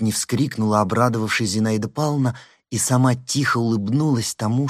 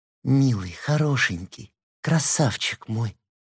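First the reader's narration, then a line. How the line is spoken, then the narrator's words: Muffled tender whisper. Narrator (Russian): прошептала она, прижимаясь лицом к подушке с неопределенной улыбкой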